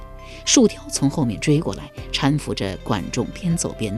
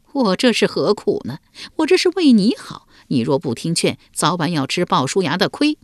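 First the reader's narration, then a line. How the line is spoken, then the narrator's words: Wry, bitter laugh. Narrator (Chinese): 树雕苦笑道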